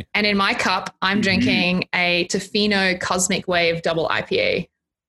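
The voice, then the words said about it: Australian accent. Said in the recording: “I have an accent like Sally, cause I'm originally from Australia ... two strange accents”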